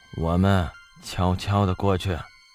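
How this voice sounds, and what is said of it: Lowered, quiet whispering voice. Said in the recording (Chinese): “压低了声音，冲着宋哲小声说道”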